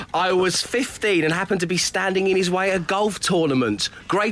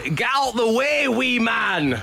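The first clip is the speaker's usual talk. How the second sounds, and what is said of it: Put-on accent imitating another person. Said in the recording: “Sorry about the accent.”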